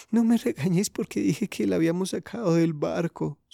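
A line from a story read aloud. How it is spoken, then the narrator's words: Sobbing. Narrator (Spanish): sollozó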